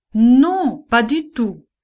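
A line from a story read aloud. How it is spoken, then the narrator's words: Shouted. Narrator (French): cria Pierre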